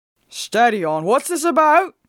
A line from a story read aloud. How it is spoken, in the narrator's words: cried our constable